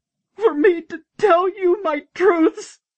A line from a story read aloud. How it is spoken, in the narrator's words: she bellowed, her voice breaking with each word